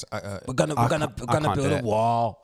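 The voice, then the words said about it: Imitates another person's voice. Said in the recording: “Who's got the best Donald Trump? ... That was trash.”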